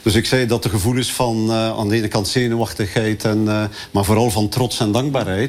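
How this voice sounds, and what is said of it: Flemish Dutch accent. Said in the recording (Dutch): “We hoorden duidelijk dat het een Vlaming is nog... We hoorden duidelijk het Vlaams accent.”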